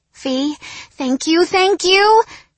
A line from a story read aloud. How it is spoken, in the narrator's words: Giovanna squealed